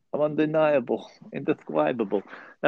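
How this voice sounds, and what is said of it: Imitates another person's voice. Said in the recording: “working on my Mike Tyson impression.”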